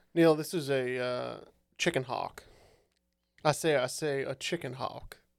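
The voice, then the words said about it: Foghorn Leghorn slow Southern drawl. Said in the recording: “I like your accent. ... It's like a molasses rolling out your mouth.”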